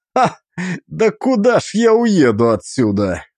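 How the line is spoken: Nervous laugh. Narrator (Russian): хохотнул я нервно

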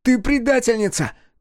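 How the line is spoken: Shouting. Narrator (Russian): кричал он

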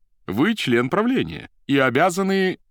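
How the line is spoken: Resonant voice. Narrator (Russian): звучным голосом сказал Поплавский

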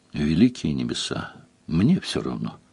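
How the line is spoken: Weary. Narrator (Russian): устало отозвалась Делия

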